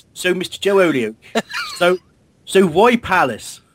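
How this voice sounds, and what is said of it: Put-on Bristolian accent. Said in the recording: “first question will be done in a Bristolian accent”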